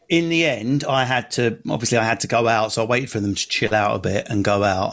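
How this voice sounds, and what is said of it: Strong North London Essex accent. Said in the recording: “I've got a quite strong North London Essex accent”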